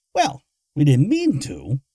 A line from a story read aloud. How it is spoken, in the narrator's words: Moggins said, his tone friendly